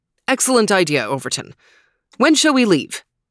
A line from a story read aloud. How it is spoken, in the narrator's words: asked Trooper